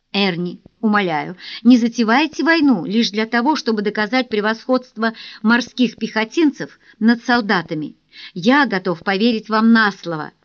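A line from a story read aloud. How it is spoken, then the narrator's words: Laughing. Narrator (Russian): рассмеялся Доминик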